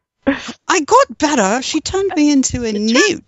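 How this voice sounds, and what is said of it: Poor put-on English accent. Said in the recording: “Horrible English accent there.”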